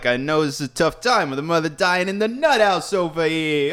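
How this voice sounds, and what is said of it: Exaggerated Brooklyn comedic voice. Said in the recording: “She's basically doing a Dice impression. ... Why is nobody else in Brooklyn speaking this way?”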